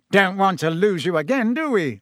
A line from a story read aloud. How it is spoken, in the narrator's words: said Fudge, with a hearty laugh